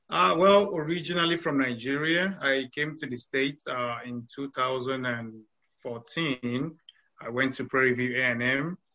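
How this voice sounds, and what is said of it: Slight foreign accent. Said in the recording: “you have a little bit of an accent.”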